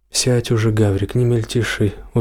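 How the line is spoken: Tired sigh. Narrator (Russian): устало вздохнула

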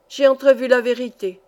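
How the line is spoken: Wanderer's exclamation. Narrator (French): s'écria l'errant

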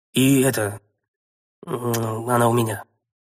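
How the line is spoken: Forced out. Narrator (Russian): выдавил я

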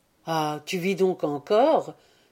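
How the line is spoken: Enthusiastic exclamation. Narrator (French): s'écria Owen dans un transport d'enthousiasme

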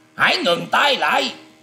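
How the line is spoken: Loud shout. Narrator (Vietnamese): Thôi Hồ quát to lên rằng

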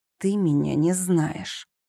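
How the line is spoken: Hissing through closed lips. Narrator (Russian): не разжимая губ, прошипела

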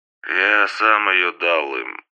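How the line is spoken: Sleepy mumble. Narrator (Russian): пробормотал во сне Сергей

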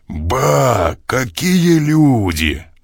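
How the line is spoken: Hall-filling roar. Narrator (Russian): Взревел на весь зал

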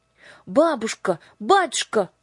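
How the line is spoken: Shouting. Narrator (Russian): крикнули Юлька и Аннушка

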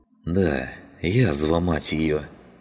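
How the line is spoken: Sighing. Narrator (Russian): вздохнул Клим

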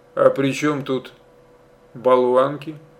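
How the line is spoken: Plain. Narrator (Russian): спросил он

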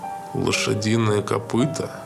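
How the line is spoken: Thoughtful. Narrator (Russian): задумчиво сказал Хантон

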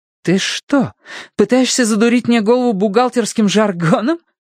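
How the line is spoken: Mother almost laughing. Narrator (Russian): Мама почти рассмеялась

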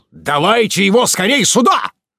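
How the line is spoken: Loud bark. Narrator (Russian): Фритьев гаркнул

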